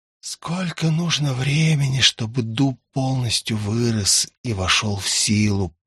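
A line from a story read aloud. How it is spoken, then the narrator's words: Hissed. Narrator (Russian): прошипел он парящему рядом призраку садовника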